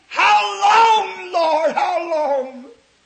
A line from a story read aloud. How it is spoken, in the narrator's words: the souls of those mothers are screaming